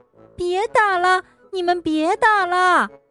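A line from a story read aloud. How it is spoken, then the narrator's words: Frightened shriek. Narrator (Chinese): 田鼠吓得…他尖叫着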